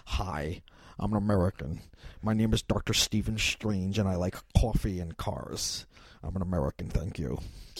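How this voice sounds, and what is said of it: Bad American accent, Cumberbatch's Dr. Strange. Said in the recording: “Benjamin Cumberbatch ... his American accent is awful.”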